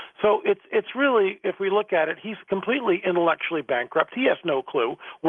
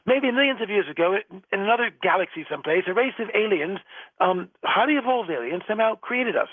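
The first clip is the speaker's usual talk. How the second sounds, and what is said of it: Bad English accent, imitating Dawkins. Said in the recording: “in another bad English accent”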